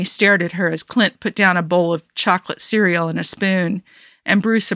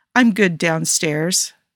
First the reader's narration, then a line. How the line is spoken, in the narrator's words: Tony glanced nervously at Steve and mumbled